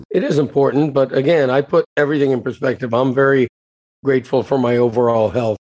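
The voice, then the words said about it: Strained, unwell-sounding voice. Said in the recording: “breathing issues and coughing issues that lead to a real effect on my voice ... Your voice has been a little bad”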